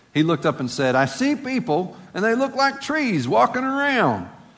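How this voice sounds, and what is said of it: Appalachian accent. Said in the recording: “that is my Appalachian accent there”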